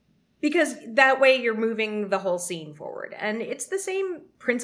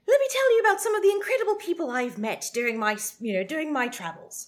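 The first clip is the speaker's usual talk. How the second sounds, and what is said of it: Put-on English accent. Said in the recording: “you might say that in English accent”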